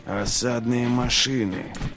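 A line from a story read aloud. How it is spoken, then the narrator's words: Hollow, muffled voice. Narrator (Russian): глухо проговорил Глокта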